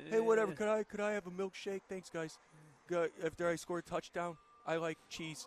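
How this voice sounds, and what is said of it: Imitates another person's voice. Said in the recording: “Was that your Eli Manning impersonation? ... That's my Eli Manning thing ... Like, it's just regular dude.”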